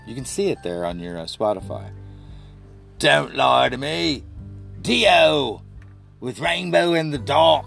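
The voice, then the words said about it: Fake English accent. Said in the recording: “I'm speaking in a fake English accent”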